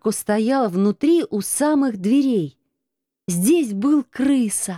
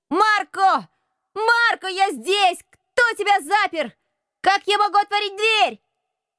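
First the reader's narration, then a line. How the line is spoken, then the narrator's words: Loud shouting. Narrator (Russian): Крыса громко крича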